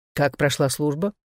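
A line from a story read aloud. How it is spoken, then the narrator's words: Plain. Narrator (Russian): спросил Дуг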